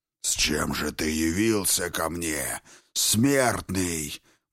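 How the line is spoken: Growled. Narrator (Russian): прорычал Темный

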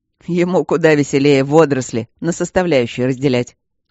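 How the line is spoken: Chuckling. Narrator (Russian): хохотнул неугомонный Мартин

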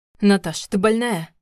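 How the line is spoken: Growl. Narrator (Russian): рыкнул он

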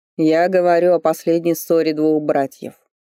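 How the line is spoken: Purring. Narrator (Russian): мурлыкнул Норберг

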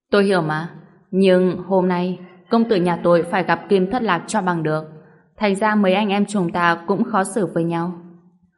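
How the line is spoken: Laughing loudly. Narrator (Vietnamese): chợt cười lớn nói

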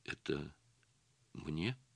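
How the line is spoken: Trembling voice. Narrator (Russian): спросила она дрогнувшим голосом

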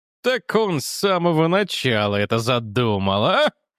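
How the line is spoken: Father's chuckle. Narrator (Russian): хохотнул отец Хобби

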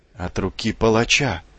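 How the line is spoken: Horrified whisper. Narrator (Russian): прошептала она с ужасом

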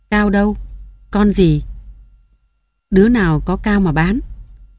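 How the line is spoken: Deep gruff voice. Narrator (Vietnamese): Mừng đến sau Sim, ồm ồm

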